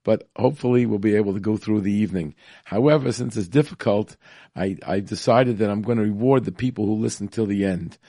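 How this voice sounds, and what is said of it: Congested voice from a cold. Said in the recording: “if you don't recognize my voice, it's because I have a little cold”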